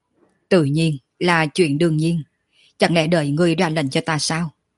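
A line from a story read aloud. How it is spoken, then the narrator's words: Loud laughing. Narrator (Vietnamese): Quân Thanh Dương cười lớn một tiếng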